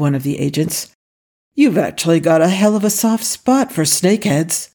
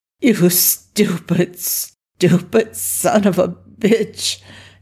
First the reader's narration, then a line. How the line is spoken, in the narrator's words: Daniel groaned